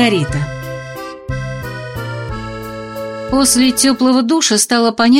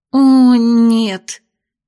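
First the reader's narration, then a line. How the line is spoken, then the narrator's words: Moaning aloud. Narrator (Russian): простонала вслух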